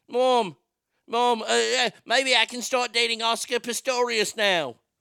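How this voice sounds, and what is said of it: Put-on accent. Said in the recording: “I'm not going to do the accent during the whole thing.”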